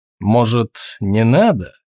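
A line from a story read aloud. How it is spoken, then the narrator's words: Gloomy. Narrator (Russian): мрачно сказал Тулгрим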